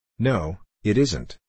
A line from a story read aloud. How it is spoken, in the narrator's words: he said